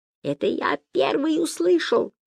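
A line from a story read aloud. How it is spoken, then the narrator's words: High squeak. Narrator (Russian): пискнул Гай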